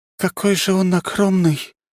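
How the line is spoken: Breathless exclamation. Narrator (Russian): выдохнула Ари

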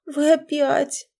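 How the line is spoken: Moaning. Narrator (Russian): простонала Наташа

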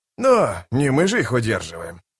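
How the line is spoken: Grumbling. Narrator (Russian): проворчал Остряк

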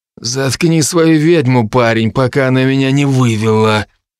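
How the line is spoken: Guard's menacing gritted teeth. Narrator (Russian): процедил с угрозой первый гвардеец

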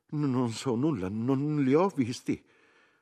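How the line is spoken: Frightened woman stammering. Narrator (Italian): una piccola e grassa donna che, spaventata, balbettò

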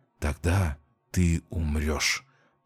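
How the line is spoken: Whisper. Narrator (Russian): прошептал

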